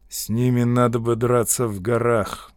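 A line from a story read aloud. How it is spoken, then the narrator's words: Gloomy speech. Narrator (Russian): мрачно сказал он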